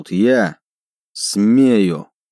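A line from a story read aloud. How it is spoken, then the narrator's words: Elf speaking through teeth. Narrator (Russian): процедил эльф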